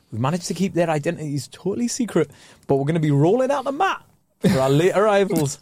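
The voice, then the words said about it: Put-on accent imitating a TV presenter. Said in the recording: “That's such a good accent.”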